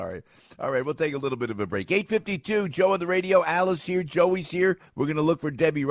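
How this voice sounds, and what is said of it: Usual voice. Nothing is said of it.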